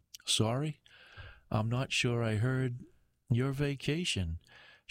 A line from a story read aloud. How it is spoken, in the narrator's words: she chuckles